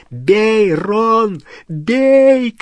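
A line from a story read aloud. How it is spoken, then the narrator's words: Shouting. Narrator (Russian): кричал Гарри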